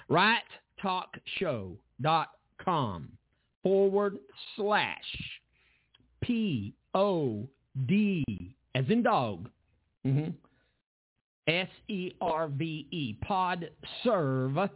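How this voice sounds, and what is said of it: Southern American accent. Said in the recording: “this southern accent”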